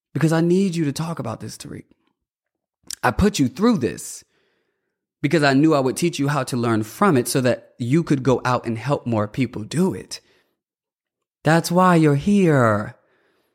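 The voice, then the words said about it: Emotional, tearful voice. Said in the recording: “I'm getting emotional.”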